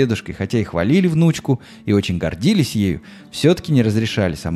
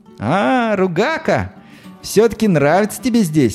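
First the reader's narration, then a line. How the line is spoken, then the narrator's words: Laughing. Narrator (Russian): рассмеялась Наталка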